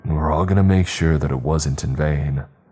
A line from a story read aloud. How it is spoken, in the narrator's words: I said in the most reassuring tone that I could muster